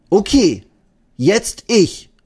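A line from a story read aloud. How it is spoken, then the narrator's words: Called out. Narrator (German): ruft Eddie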